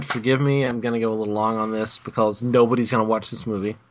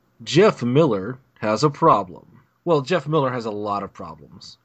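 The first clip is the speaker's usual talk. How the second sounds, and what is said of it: Dramatic movie trailer narrator voice. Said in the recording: “do my movie trailer voice”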